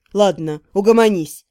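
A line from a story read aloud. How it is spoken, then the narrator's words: Snort. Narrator (Russian): фыркнул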